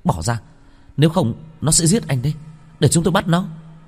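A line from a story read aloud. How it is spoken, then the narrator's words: Annoyed shout. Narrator (Vietnamese): Vân Vân bực bội hét lên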